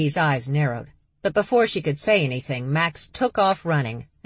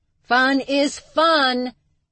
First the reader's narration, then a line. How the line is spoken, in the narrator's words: Charlie yelled after her sisters